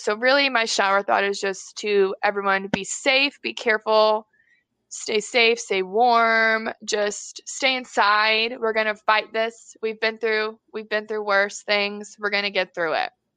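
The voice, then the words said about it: Emotional, shaky voice. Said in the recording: “I'm a little emotional about it”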